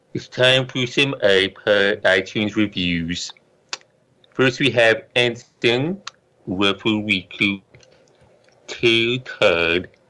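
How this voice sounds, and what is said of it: Silly character voice. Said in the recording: “in my Moo Moo voice”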